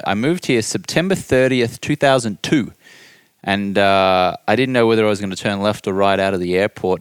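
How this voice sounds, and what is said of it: Australian accent. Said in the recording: “you have an Australian accent.”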